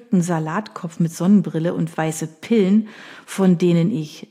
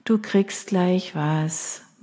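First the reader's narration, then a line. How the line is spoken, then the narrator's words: Tired smiling murmur. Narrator (German): murmelte ich müde lächelnd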